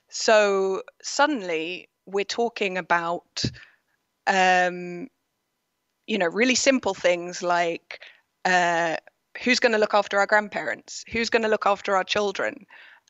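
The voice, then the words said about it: British English accent. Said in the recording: “in the UK, which is where I'm originally from, if anyone's wondering about the accent”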